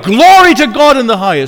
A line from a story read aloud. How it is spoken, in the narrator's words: the angels, who derive no benefit at all from the birth of Christ and the work that he was going to do, rejoiced in God and cried